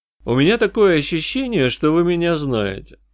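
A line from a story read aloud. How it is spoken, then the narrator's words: Calm remark. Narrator (Russian): спокойно заметил я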